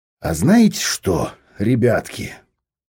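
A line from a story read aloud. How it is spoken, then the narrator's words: Thoughtful drawl. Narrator (Russian): задумчиво протянул Виктор Егорович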